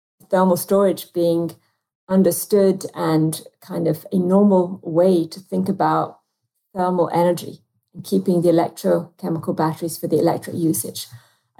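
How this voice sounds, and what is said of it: British accent. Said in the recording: “you can probably tell from my accent that I'd love to also expand into the UK”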